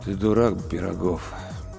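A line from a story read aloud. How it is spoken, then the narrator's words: Dull ghostly voice. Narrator (Russian): тусклым голосом произнес призрак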